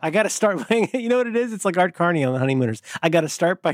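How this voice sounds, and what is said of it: Usual voice. Nothing is said of it.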